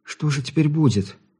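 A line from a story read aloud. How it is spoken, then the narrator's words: Frightened question. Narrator (Russian): испуганно поинтересовалась она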